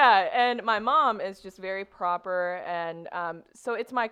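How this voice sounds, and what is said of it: Usual voice. Nothing is said of it.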